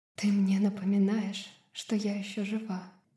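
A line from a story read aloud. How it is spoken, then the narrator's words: Hoarse confession. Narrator (Russian): хрипло призналась она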